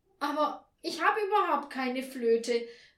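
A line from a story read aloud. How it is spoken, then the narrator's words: Desperate cry. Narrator (German): rief Frau Schilling verzweifelt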